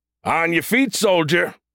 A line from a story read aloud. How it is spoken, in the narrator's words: the soldier bellowed